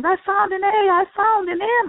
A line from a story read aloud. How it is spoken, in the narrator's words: Others shouted